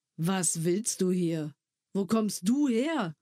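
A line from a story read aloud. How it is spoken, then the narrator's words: Brusque question. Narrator (German): fragte schroff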